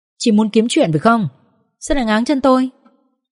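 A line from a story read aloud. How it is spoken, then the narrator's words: Glaring shout. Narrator (Vietnamese): Tôi trừng mắt nhìn Nga và quát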